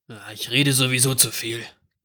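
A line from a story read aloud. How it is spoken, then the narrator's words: Murmur. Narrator (German): murmelte er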